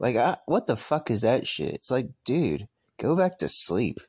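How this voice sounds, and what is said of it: Usual voice. Nothing is said of it.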